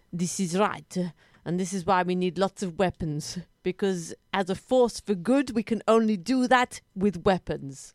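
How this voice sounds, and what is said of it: Foreign accent. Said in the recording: “I do love your accent.”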